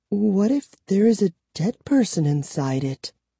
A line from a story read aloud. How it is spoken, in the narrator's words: Kara asked in a tiny voice